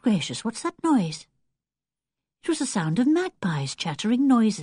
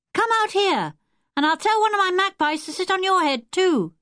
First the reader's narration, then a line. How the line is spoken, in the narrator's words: shouted Wilfred